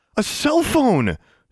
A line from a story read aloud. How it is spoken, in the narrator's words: exclaimed